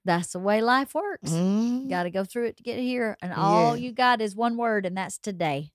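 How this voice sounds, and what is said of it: Strong Southern US accent. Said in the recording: “your accent that you just hit with... I just get real southern all of a sudden... whoa, that was really southern”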